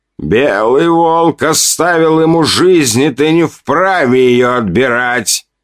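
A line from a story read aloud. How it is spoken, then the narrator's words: Sudden loud, confident. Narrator (Russian): вдруг громко, уверенно произнес Сови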